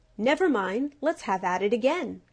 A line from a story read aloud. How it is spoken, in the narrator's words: cried the beetle